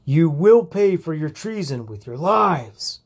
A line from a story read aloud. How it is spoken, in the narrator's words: the leader screamed